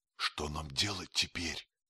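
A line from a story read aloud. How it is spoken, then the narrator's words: Whispered question. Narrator (Russian): шепотом спросил сэр Генри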